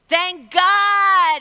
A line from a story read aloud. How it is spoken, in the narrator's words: shouted